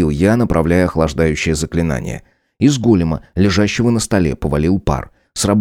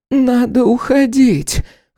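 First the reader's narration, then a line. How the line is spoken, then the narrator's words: Hoarse. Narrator (Russian): хрипло произнесла декан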